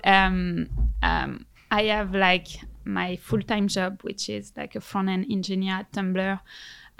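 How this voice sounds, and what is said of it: French accent. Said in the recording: “you have the most beautiful French accent”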